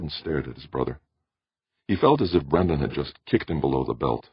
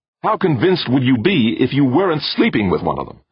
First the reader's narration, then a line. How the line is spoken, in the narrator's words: snapped